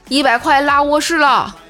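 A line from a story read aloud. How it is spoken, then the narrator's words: Shouting from a window. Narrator (Chinese): 他从二楼窗户喊他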